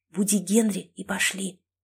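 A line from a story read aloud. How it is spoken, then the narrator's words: Conspiratorial whisper. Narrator (Russian): заговорщически зашептала я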